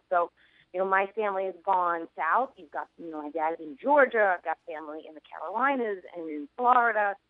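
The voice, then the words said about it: New York accent. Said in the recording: “people talk about my accent all the time ... wow, you have an accent. I'm like, yeah, this is New York. Everybody used to sound just like me.”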